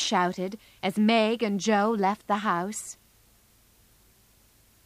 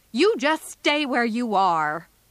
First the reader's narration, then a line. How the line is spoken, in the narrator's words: said Joe angrily